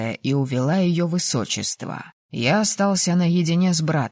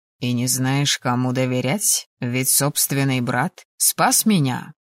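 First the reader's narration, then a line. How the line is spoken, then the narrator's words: Cold, curt. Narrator (Russian): холодно бросил Эл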